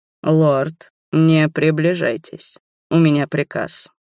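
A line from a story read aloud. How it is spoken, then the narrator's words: Dangerous growl. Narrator (Russian): опасно прорычал Дольф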